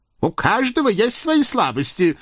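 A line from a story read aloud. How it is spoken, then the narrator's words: Hateful snap. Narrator (Russian): огрызнулся Пияв с ненавистью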